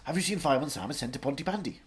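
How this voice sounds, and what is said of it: Put-on Welsh accent. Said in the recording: “a phrase to say in a Welsh accent”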